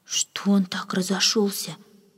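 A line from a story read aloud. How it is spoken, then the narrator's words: Whispered maid's question. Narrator (Russian): шепотом спросила одна служанка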